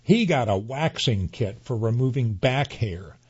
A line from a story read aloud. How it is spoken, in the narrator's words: the woman barks